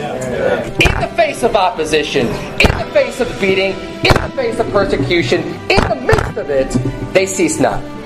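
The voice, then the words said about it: Loud, raised preaching voice. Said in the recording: “I'm going to raise my voice. I got a pretty loud voice.”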